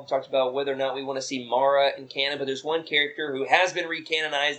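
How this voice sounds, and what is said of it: Southern US accent. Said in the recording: “with my southern accent”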